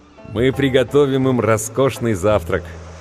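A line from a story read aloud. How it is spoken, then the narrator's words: Joyful laughter. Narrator (Russian): Хэтэуэй радостно засмеялся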